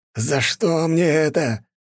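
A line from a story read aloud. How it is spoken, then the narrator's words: Yelling. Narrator (Russian): орал граф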